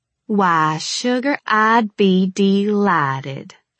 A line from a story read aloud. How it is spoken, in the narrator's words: I drawled